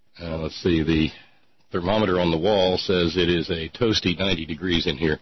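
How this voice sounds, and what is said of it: Tired-sounding voice. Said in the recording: “I sound a little tired”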